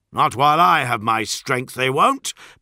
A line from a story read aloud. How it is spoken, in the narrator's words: bellowed Solomon